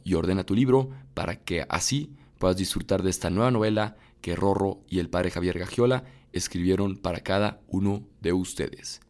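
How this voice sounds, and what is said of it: Radio announcer voice. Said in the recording (Spanish): “Esa fue mi voz de locutor.”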